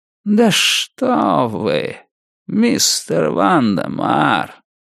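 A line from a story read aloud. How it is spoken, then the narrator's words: Slow, savoring each word. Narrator (Russian): Медленно проговорил мистер Крупп, как всегда наслаждаясь каждым словом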